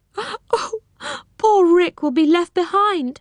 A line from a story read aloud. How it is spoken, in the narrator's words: she sobbed